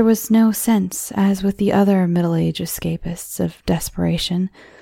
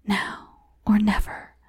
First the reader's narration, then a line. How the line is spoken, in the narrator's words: There came the whisper